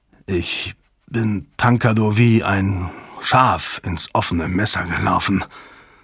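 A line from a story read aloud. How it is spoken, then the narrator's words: Flat toneless voice. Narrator (German): sagte Strathmore tonlos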